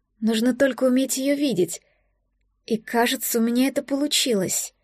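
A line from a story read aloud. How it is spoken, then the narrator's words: Quiet addition. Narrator (Russian): тихо добавила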